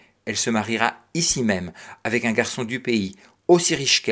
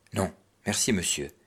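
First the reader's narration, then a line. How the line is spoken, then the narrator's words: Cold. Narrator (French): répondit froidement Cyprien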